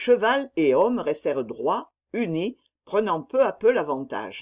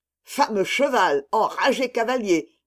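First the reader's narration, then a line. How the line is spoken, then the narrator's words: Captain growling. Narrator (French): gronda le capitaine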